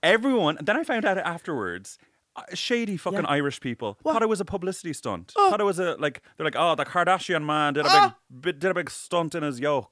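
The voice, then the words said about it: Irish accent. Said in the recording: “Oh my God, this Irish accent.”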